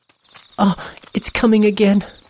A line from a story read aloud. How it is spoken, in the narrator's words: a female voice said